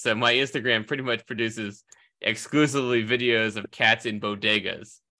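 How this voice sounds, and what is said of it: Slightly nasal, allergic-sounding voice. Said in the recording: “my slightly allergic um, nasal thing going on right now”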